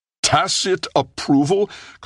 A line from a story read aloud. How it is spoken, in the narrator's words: Kossoff roared